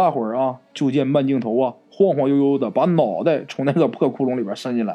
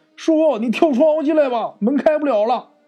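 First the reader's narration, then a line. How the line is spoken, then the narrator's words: Shouting. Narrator (Chinese): 张同辉，喊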